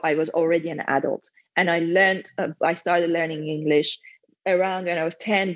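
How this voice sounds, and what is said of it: Non-native English accent. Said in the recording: “I'm always going to have an accent. And there's always going to be a point where it will give away that English is not my first language”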